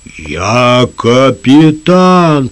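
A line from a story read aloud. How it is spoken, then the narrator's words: Booming voice. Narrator (Russian): прогудел первый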